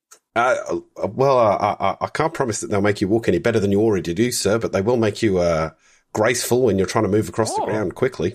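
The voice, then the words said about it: Convincing put-on Australian accent. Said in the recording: “She's Australian. ... That's a really good Aussie accent, by the way. Yes, really good.”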